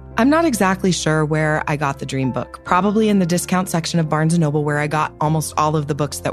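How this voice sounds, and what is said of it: Congested voice from a cold. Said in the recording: “if you can't tell, I have a cold.”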